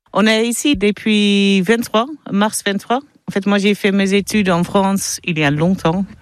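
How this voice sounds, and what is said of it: Dutch accent speaking French. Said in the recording (French): “ont l'accent néerlandais”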